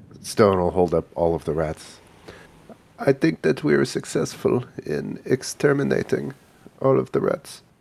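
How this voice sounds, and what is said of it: Congested voice from a cold. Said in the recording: “do you sound different ... I've had a cold of late”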